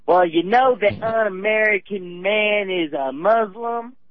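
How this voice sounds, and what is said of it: Imitates another person's accented voice. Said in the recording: “About that tone of voice, too. You know, tone of voice with the accent.”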